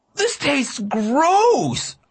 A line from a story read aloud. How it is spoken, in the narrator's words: I cried